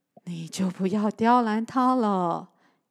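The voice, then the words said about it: Old, mature-sounding voice. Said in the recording (Chinese): “一个老成的声音说着”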